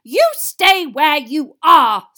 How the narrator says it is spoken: snarled Mrs

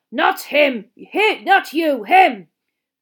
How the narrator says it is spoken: Moody growled

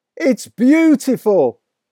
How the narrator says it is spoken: cried

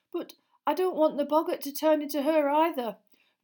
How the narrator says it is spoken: said Neville nervously

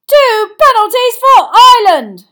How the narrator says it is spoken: shouted Bagman

